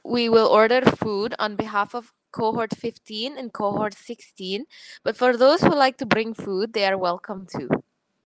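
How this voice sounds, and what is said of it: Put-on Irish accent. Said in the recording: “An Irish accent. ... That's not bad, actually.”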